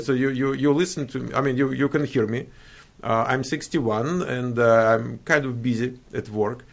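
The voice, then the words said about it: Noticeable foreign accent. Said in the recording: “is it possible to dramatically reduce my accent?”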